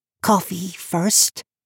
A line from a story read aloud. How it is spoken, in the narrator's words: he pleaded